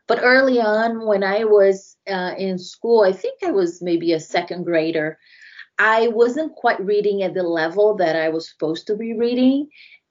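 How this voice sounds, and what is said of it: Brazilian accent. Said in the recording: “I don't know if your listeners picked up on my accent, but I grew up in Brazil.”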